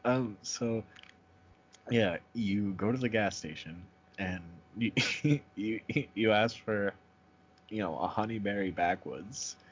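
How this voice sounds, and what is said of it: Boston accent. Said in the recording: “I can't unhear the Boston accent thing ... see, now I'm here, the Boston accent.”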